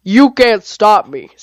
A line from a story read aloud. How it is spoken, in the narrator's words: Scarygon roared